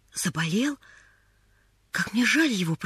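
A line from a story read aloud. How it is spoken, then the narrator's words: Whisper. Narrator (Russian): прошептала Поллианна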